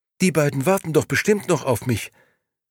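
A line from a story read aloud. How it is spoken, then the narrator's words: Stammering. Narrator (German): stammelte sie schließlich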